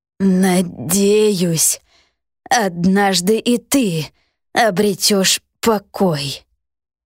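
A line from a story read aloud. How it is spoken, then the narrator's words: Creaky earth spirit. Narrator (Russian): проскрипел дух земли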